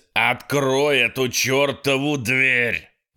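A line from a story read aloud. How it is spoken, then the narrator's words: Snarled. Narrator (Russian): рыкнул Ситерстон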